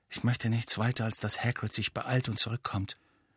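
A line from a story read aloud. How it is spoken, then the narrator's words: Quiet. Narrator (German): sagte Harry leise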